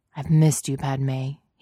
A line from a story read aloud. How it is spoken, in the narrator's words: he murmured into her hair